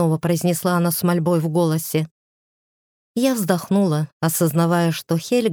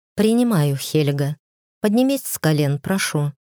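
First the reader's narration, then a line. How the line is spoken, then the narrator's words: Soft reply. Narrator (Russian): мягко ответила я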